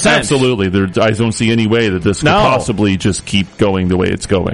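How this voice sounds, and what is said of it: Serious newsreader voice. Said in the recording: “this is my serious news voice”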